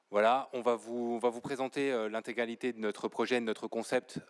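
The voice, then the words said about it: Speaks French with an accent. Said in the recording (French): “vous m'excuserez pour mon accent.”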